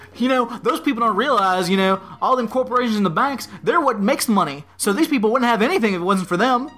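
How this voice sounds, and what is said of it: Exaggerated ridiculous put-on accent. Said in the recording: “I'm giving him a ridiculous accent because he should have one”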